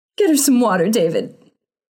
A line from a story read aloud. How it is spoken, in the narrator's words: sobbed her mother